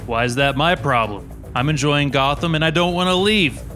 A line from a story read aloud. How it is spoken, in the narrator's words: Brock replied